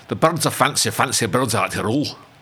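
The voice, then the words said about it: Put-on Scottish accent. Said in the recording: “I've got to do a Scottish accent to this. ... A Scottish accent? ... That's excellent. ... That's pretty good.”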